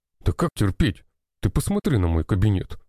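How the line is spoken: Grumbling. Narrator (Russian): проворчал

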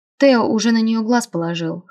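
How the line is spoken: Amused snort. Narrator (Russian): хмыкнул Джо

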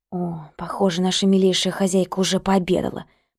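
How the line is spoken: Hissing. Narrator (Russian): прошипела я

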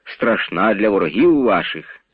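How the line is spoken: Plain. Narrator (Ukrainian): відповів барон

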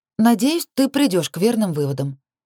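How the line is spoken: Matter-of-fact tone. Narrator (Russian): будничным тоном проговорила я

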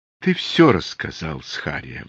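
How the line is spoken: Sighing. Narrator (Russian): вздохнул Какан

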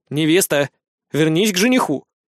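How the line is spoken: Stern. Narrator (Russian): строго говорит Ник, а у самого глаза блестят от счастья

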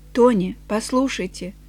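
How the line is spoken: Very quiet, calm. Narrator (Russian): Она очень тихо и спокойно произнесла

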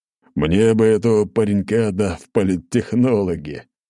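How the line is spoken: Said through laughter. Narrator (Russian): сквозь смех сказал Величество

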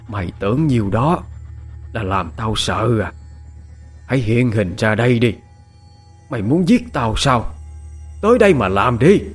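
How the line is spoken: Fierce, harsh growl. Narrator (Vietnamese): gằn giọng hung tợn

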